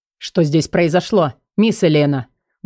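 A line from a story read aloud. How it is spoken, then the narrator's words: Menacing. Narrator (Russian): Грозно начал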